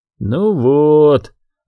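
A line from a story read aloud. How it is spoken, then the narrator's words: Disappointed drawl. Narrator (Russian): разочарованно протянул Шорти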